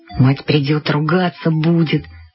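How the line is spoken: Mumbling. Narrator (Russian): бормотал он

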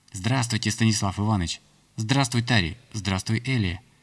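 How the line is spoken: Girls chattering over each other. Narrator (Russian): Наперебой затараторили девчата

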